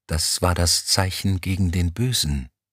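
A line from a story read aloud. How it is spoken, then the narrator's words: Whispering while walking. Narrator (German): flüsterte Kolaou Elm im Gehen zu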